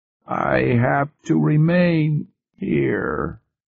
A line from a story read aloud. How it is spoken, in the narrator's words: Preston said, slowly and painfully, picking his words with infinite care